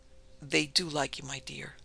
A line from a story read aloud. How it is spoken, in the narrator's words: he said gravely